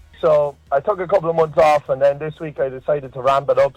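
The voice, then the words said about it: Noticeable regional accent. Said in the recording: “you got quite the accent there”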